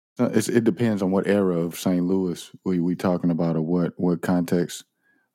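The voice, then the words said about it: St. Louis accent. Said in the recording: “my accent tells on me... people sometimes they think I'm from Atlanta or something like that, but St. Louis is in the way I speak”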